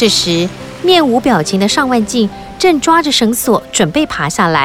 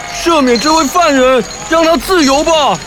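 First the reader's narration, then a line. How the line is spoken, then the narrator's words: Loud shout. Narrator (Chinese): 有人大叫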